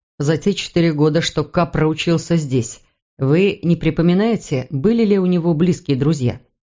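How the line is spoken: Plain. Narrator (Russian): спросил Мур

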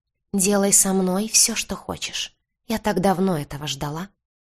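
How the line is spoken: Hoarse whisper. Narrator (Russian): хриплым шепотом сказала она

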